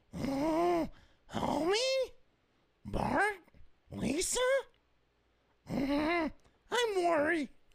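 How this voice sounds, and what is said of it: Marge Simpson cartoon voice impression. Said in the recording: “my Marge Simpson impression”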